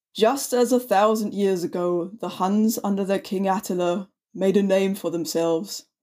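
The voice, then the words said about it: German accent. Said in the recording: “I'm going to put on my best German accent. Oh, um, wait, I've already got one.”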